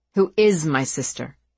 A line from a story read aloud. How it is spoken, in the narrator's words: he corrected her, his voice bitter